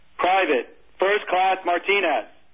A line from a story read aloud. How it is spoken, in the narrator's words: the gunny yelled